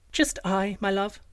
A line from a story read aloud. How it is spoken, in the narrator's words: replied the princess sweetly